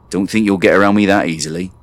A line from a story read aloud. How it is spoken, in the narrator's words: he growled